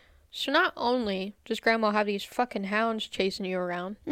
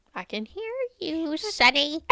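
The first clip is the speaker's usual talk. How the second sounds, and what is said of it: Imitates another person's voice. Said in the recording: “that was such a good, that was such a good impersonation of Grandma”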